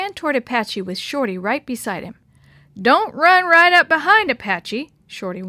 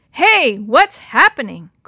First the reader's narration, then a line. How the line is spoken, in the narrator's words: Chris shouted